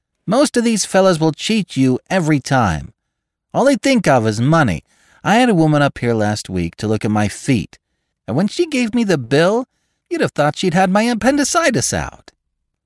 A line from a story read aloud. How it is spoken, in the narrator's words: told in a high, mincing shout